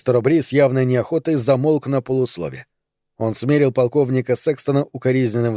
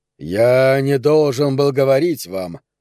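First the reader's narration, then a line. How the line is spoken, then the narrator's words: Low, sullen male voice. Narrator (Russian): нарушил он, наконец, молчание, обращаясь к одному только капитану Фоксу, ставшим вдруг низким и угрюмым голосом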